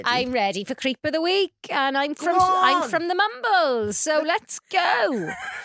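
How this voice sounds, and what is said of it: Put-on Welsh accent. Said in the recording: “This is like a Welsh podcast ... I'm going to be doing this accent ... So we're not doing the accent.”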